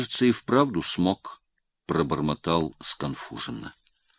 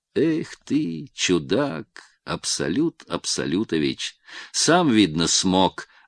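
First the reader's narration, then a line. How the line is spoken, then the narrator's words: Laughing. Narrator (Russian): рассмеялся Пущин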